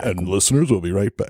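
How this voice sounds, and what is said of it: Put-on radio announcer voice. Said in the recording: “That's my radio voice.”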